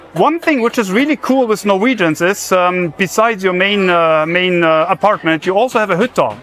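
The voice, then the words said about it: German accent. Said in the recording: “as you might have heard from my accent, I'm German.”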